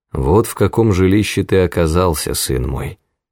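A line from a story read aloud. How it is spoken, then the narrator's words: Sad. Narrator (Russian): сказал он, печально оглядывая зарешеченные окна и всю жалкую комнату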